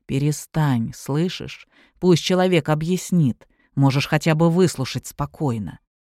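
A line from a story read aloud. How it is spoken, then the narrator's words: Quietly into the ear. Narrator (Russian): проговорил тихо на ухо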